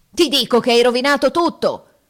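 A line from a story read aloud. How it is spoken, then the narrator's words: Furious roar. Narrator (Italian): ruggite, desiderando d'aver l'amico nelle mani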